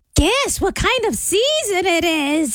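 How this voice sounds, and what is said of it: Spooky witch voice. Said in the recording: “It's my witch voice. Did you hear my witch voice?”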